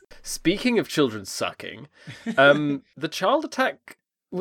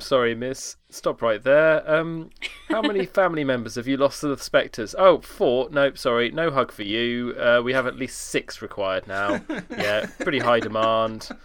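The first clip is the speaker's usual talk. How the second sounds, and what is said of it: Put-on very British accent. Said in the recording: “You delivering that in, like, a very British accent ... have a stiff upper lip”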